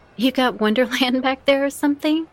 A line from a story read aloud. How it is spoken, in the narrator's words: She giggled